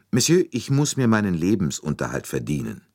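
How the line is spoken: Calm, slightly hard. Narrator (German): Sie sagte ruhig, aber mit einer Spur von Härte in der Stimme

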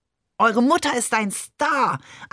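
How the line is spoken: Overjoyed shout. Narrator (German): schrie Barbe überglücklich

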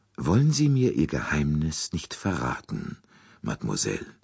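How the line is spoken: Very soft, pleading. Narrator (German): Poirots Stimme klang sehr sanft, fast beschwörend

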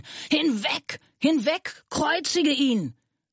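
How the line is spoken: Crowd screaming. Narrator (German): Sie aber schrien

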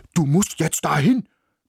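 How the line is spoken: Barking. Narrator (German): bellte er

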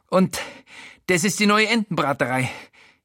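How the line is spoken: Gasping. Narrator (German): japst

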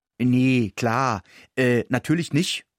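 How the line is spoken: Plain. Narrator (German): sagte ich

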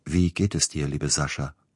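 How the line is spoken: Plain. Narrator (German): fragte der Bruder

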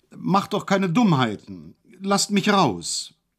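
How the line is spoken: Calling out. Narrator (German): rief er

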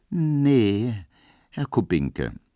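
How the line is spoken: Very slow reply. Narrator (German): versetzte Pauline ganz langsam

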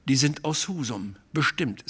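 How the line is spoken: Plain. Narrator (German): sagte ich

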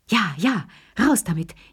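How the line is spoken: Three old people gasping. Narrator (German): japsten die drei Alten

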